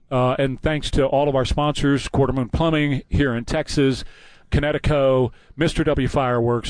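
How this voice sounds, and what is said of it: Out of breath, hoarse voice. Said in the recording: “I'm a little bit out of breath and a little bit out of voice ... Now you've come back out of breath”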